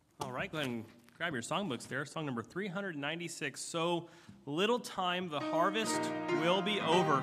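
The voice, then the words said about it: Hoarse, strained voice. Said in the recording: “I'm losing my voice up here”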